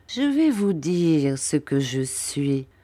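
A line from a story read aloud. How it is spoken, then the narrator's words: Murmured. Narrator (French): murmura Monsieur Creakle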